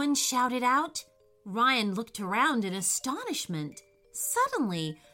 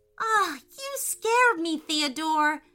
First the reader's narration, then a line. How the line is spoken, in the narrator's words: cried Ryan